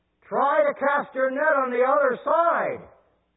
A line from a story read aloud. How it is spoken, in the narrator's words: Jesus yells out